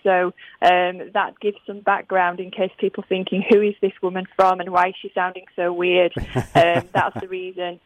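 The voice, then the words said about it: Strong Yorkshire English accent. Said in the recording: “my very Yorkshire accent”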